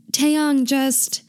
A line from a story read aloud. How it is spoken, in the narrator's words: Hobi he yells